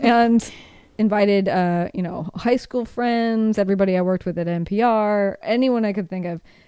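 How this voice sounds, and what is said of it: Usual voice. Nothing is said of it.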